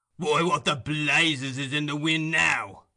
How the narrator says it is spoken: growled a deep voice

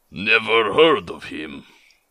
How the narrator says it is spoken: growled the man

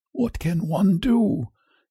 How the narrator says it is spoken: he murmured

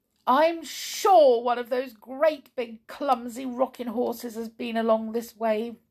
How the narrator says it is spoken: sobbed Bruiny

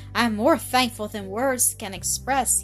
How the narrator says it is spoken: he sighed

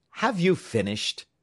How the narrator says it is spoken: asked the captain very impatiently

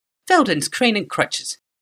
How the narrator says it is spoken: she snapped

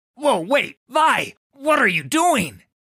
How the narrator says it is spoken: spluttered Devaki

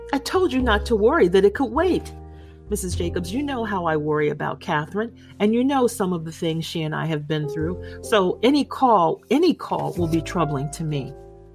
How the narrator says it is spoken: she was laughing, and she said

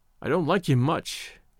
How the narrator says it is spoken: he said

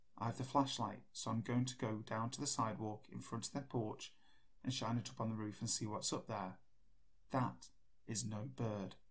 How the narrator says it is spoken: My husband whispered

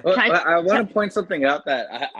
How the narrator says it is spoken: I yelled at Kaylee and Mick

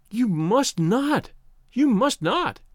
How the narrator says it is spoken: she cried wildly

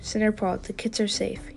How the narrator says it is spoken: he murmured

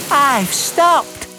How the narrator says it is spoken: Percy puffed happily

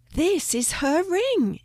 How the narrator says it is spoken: exclaimed Jody

